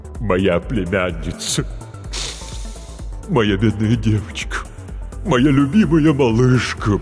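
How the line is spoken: Deep-voiced wailing. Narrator (Russian): басом запричитала трагедия

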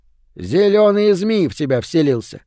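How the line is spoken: Snorting. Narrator (Russian): хмыкнул Малруни

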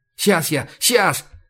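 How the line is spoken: Hurried mumble. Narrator (Russian): Торопливо бормочет Кол

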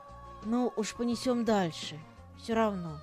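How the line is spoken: Whispered reply. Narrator (Russian): прошептал я в ответ

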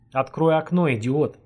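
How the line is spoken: Laughing. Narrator (Russian): смеясь проговорил Боря

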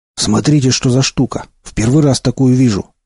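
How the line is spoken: Joyful exclamation. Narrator (Russian): радостно воскликнул Молчун

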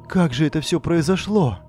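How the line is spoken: Trembling voice. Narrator (Russian): спросила я дрожащим голосом

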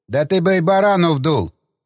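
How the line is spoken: Snorting, mocking. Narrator (Russian): хмыкнул Засоль

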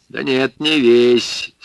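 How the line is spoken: Creaky voice. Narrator (Russian): сказал он скрипучим голосом

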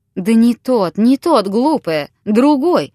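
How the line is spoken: Exclaiming. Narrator (Russian): воскликнул Виктор

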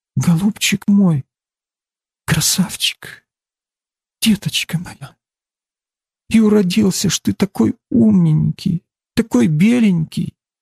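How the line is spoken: Tender, pitying whisper. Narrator (Russian): с умилением и с жалостью и шептала

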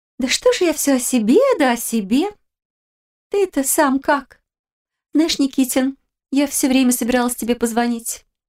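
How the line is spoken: Warm cooing, smiling. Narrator (Russian): Яна улыбнулась шутке и, добавив голос теплоты, проворковала

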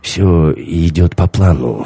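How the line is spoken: Hoarse. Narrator (Russian): хрипло сказал Рашер

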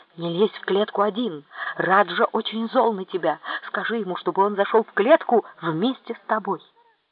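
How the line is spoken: Whispering in ear. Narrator (Russian): шепнул на ухо

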